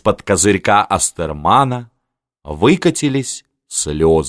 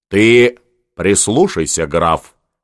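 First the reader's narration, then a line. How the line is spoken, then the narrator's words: Stern admonishing. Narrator (Russian): строго внушила Анна Иоанновна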